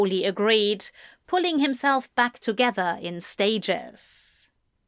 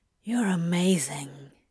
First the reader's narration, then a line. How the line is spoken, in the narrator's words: Crowley whispered